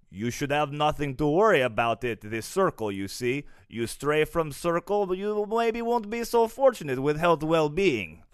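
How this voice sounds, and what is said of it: Put-on Russian accent. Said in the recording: “the Russians, when they told them about the security circle, told them like this ... that's terrifying with that accent”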